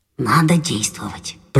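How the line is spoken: Whisper. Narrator (Russian): прошептал Крендель

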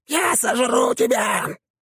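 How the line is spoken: Impatient creature screaming. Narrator (Russian): завопила тварь, потеряв терпение

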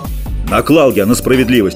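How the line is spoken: Barked. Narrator (Russian): рявкнул Ипат

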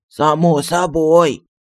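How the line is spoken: Genie's grumble. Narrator (Russian): буркнул джин

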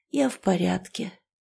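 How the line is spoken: Quiet reply. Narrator (Russian): тихо ответила колдунья

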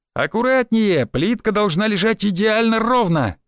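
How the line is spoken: Shouting. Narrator (Russian): кричал Валек на мастера

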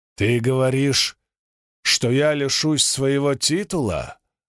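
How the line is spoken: Growling. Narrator (Russian): прорычал Рутер

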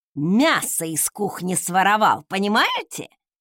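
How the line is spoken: Growl. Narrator (Russian): рыкнула Велла

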